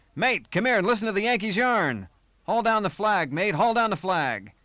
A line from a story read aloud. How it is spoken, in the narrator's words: he roared